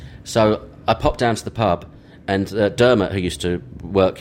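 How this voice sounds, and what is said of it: Usual voice. Nothing is said of it.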